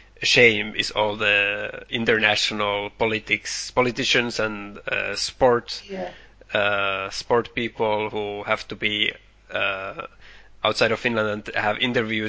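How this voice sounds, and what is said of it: Finnish accent in English. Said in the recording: “you can hear it also in our accent. We have this Finnish accent, even if we try to pronounce things as good as we can.”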